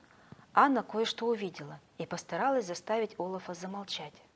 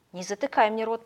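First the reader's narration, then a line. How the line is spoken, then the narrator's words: Grumble. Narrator (Russian): пробурчал Снеговичок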